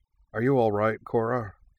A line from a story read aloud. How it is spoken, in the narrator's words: asked Iroh over the noise